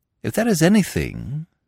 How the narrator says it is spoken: said Smith kindly

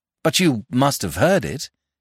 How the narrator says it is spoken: he exclaimed

